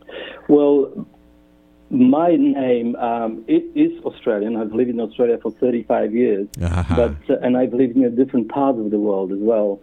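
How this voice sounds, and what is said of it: Non-Australian, Polish-accented English. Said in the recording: “that accent that I am hearing over the airwaves is not an Australian accent”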